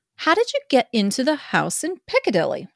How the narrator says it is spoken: I asked

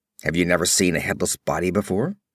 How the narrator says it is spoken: Conan asked testily

